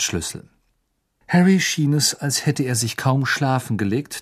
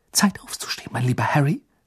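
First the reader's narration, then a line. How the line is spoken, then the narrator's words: Whispering. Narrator (German): flüsterte sie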